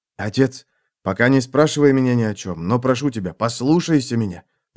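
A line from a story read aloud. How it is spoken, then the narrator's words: Whispering. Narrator (Russian): прошептал сын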